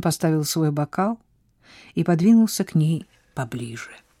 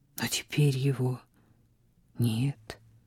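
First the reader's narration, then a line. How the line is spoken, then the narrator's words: Softly spoken. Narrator (Russian): мягко сказал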